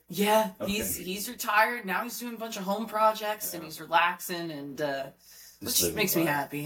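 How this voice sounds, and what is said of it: Raspy voice with Philly accent. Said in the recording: “that little raspy voice ... Definitely the accent ... She's from Philly”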